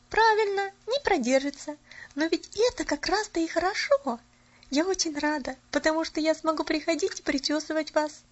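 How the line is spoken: Cheerful chirping. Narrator (Russian): весело защебетала Поллианна

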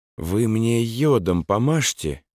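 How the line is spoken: Quiet words in silence. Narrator (Russian): негромко промолвил в наступившей тишине лейтенант

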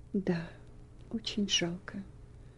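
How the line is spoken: Quiet remark. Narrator (Russian): заметил он тихо ее тете

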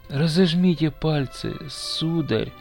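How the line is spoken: Barely audible child. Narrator (Russian): еле слышно говорил мальчик

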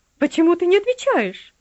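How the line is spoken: Shrill squeal. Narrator (Russian): взвизгнула она

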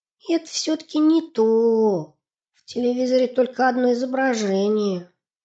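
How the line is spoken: Heavy sigh. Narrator (Russian): Сипсик сказал, тяжело вздохнув

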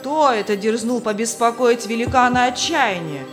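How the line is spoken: Shout. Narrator (Russian): крикнул хозяин замка

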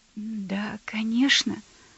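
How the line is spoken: Hurried mutter. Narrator (Russian): пробормотал он, спеша к двери

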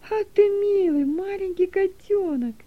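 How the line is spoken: Joyful exclamation. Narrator (Russian): радостно воскликнула Дилека

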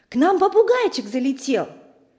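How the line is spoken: Joyful. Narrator (Russian): Мы радостно сообщили

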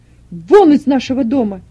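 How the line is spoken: Shouting. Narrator (Russian): закричал Бартов-старший

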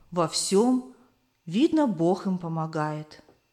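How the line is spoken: Old woman's thoughtful sigh. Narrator (Russian): вздохнула задумчиво старушка

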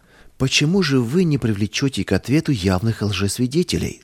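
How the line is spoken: Plain. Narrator (Russian): спросил я

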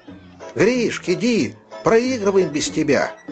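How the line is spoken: Group of boys shouting. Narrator (Russian): кричали ему ребята

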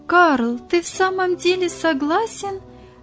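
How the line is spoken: Joyful exclamation. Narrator (Russian): радостно воскликнула Софья

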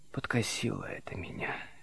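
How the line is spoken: Barely audible. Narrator (Russian): чуть слышно сказал Лазарев

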